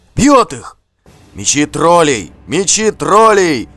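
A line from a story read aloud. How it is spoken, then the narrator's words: Crowd shouting. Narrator (Russian): закричали вокруг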